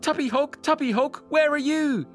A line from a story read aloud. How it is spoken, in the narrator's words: he shouted